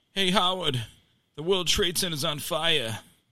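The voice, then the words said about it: New York accent impression. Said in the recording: “with his New York accent”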